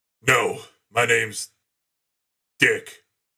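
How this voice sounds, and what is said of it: Good Mick character impression. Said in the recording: “good Mick impersonation”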